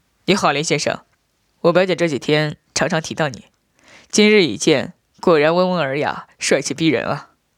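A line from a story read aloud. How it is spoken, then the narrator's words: Laughing. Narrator (Chinese): 笑道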